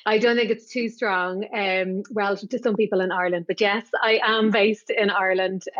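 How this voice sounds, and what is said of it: Strong Irish accent. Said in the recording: “you have a strong Irish accent”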